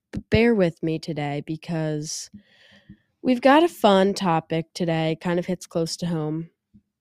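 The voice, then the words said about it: Nasal and deep sick voice. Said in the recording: “my voice is nasally and I don't know if you guys can tell. You probably can. ... I sound ridiculous. ... I feel like it's nasally and deep at the same time.”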